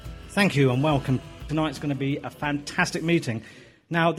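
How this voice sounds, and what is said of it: Usual voice. Nothing is said of it.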